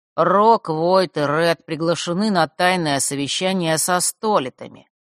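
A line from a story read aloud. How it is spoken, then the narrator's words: Lazy bored drawl. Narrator (Russian): лениво растягивая слова, будто ему уже надоел этот разговор, произнес Примаро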